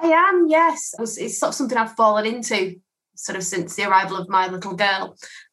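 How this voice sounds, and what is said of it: Manchester English accent. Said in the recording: “I love that accent. ... I'm from Manchester in the UK.”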